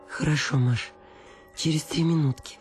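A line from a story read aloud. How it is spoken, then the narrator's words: Pleading voice. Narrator (Russian): сказала Анна Акимовна умоляющим голосом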